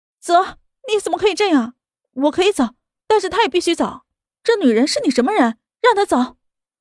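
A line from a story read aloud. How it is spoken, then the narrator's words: Breaking down, screaming. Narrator (Chinese): 莫雨涵崩溃的大喊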